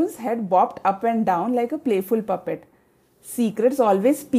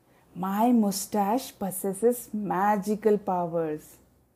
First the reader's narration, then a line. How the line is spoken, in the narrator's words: Drawing closer, the man whispered